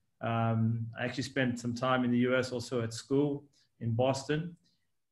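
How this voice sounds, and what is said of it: South African-Australian accent. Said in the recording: “as you may hear from my accent ... my accent moves in between South Africa and Australia”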